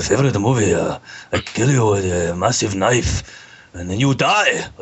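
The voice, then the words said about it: Put-on Japanese accent. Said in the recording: “do an Asian accent ... What kind of Asian accent ... Japanese”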